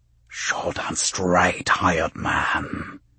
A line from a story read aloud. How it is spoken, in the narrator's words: the voice whispered